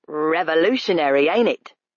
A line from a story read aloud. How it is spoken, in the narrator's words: he snapped